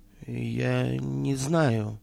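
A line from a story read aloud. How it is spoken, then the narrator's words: Muttered. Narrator (Russian): пробормотал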